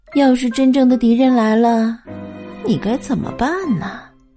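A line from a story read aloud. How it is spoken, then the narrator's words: Sighing. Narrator (Chinese): 妈妈叹了口气说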